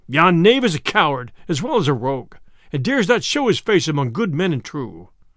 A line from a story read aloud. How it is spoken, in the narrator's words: quoth the sheriff angrily